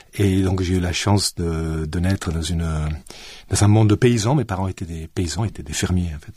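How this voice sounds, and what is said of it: Southern French accent. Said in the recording (French): “on entend un peu votre accent, un accent français, du sud de la France ... mon accent le trahit parfaitement”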